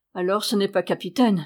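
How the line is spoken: Exclaiming. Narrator (French): s'écria Mathurin

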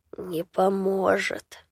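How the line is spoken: Sepulchral voice. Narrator (Russian): Загробным голосом ответил беда

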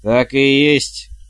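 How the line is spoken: Barked loudly. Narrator (Russian): гаркнула матушка

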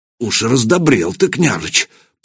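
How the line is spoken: Muttered. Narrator (Russian): пробормотал Ярош

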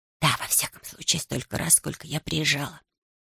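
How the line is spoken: Mumbled through still lips. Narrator (Russian): пробормотала она, стараясь не шевелить губами

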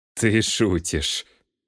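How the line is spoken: Forced laugh. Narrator (Russian): Голд натянуто рассмеялся

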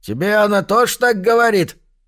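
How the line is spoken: Shout. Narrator (Russian): крикнул кто-то

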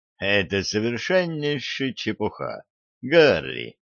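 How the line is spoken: Calm. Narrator (Russian): спокойно сказал Шульц

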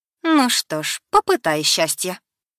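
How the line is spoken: Mocking. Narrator (Russian): насмешливо проговорила девушка

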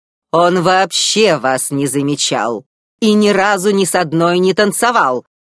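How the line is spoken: Barked. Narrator (Russian): рявкнула она

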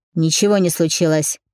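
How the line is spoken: Barked. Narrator (Russian): рявкнул он

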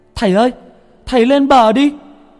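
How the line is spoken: Shout. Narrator (Vietnamese): Nó hét lên

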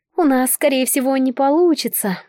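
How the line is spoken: Sighing. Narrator (Russian): вздохнула Ванна

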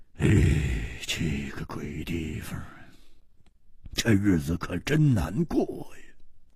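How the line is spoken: Sighing murmur. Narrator (Chinese): 只得叹了一口气，喃喃地说

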